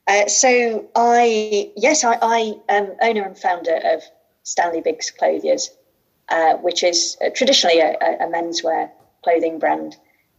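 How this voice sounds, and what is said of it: English Midlands accent. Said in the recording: “based here in the Midlands of the United Kingdom. And you'll tell by my accent, I'm also from the Midlands”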